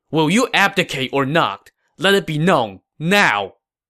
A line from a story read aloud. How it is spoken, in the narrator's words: Hua Xin said angrily